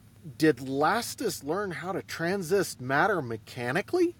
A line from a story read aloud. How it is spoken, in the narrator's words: Galton laughed grimly, without humor